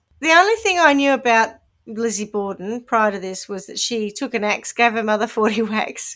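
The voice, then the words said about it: New Zealand accent. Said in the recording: “That's just my Kiwi accent. That's why it sounds wrong.”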